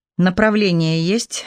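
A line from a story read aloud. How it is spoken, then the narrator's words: Harsh bark. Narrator (Russian): рявкнула медсестра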